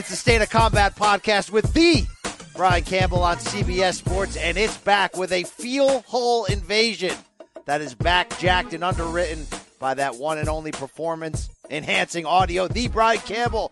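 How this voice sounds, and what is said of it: Excited, hyped-up delivery. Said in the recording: “I know you can hear the excitement in my voice.”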